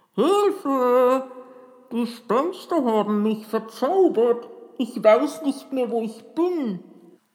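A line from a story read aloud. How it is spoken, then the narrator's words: Calling in disguised voice. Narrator (German): rief er mit verstellter Stimme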